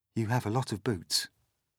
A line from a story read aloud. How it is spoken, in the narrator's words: James murmured